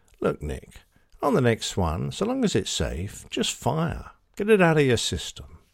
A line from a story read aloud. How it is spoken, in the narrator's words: gently tells me